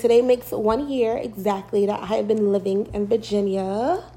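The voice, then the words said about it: New York accent. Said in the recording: “I'm from New York. Y'all probably can tell in my well, in an accent”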